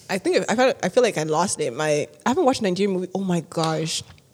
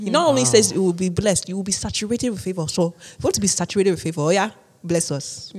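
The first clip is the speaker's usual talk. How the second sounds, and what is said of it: Put-on Nigerian accent. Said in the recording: “It's a good Nigerian accent, man. ... That's really good. ... I never heard you go that long in your Nigerian like accent”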